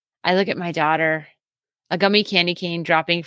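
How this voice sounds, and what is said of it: Usual voice. Nothing is said of it.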